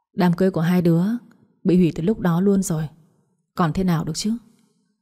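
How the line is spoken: Sighing old man. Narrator (Vietnamese): Ông Hùng thở dài rồi nói

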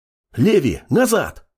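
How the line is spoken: Young man's bark. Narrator (Russian): Успел рявкнуть парень

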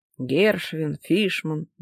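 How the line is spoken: Policeman's grumble. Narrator (Russian): буркнул один из полицейских

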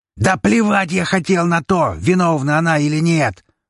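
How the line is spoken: Barked. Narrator (Russian): рявкнул Штайнберг

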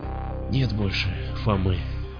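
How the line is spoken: Barely audible whisper. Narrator (Russian): еле слышно прошептал я

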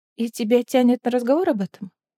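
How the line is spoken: Plain. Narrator (Russian): спросила она

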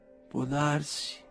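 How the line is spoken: Lawyer speaking quietly. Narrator (Italian): disse piano l'avvocato

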